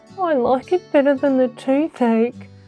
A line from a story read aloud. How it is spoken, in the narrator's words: the kangaroo moaned